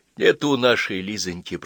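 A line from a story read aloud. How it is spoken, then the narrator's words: Whispered. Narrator (Russian): прошептал Василий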